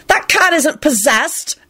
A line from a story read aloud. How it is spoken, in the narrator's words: Alex said angrily